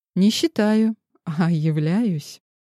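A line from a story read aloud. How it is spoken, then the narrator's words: Calm young woman. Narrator (Russian): спокойно ответила девушка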